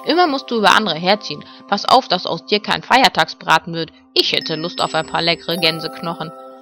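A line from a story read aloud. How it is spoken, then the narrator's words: Grumbling. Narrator (German): brummte Ben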